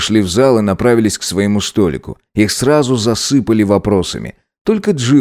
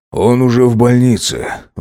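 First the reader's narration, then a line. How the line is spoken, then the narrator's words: Breathed out. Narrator (Russian): выдохнул он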